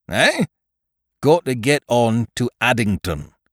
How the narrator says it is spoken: said Frederick firmly

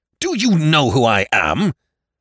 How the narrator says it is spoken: thundered McEachern

